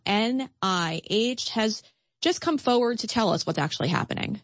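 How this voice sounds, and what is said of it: Usual voice. Nothing is said of it.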